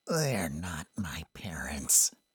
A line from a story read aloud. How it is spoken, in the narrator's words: he croaked out